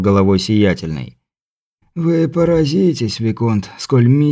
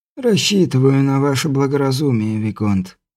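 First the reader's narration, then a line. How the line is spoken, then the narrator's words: Sighing. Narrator (Russian): вздохнул герцог Тальм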